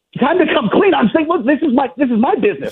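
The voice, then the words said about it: Yelling, raised voice. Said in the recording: “why are you yelling? ... stop yelling”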